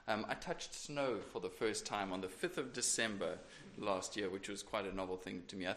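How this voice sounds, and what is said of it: South African accent. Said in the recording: “as you can tell from my accent. I'm not really around from around these parts. I'm from sunny South Africa.”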